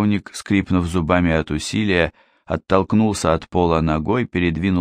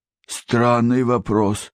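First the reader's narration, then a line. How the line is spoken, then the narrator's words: Grumbled. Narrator (Russian): проворчал Логинов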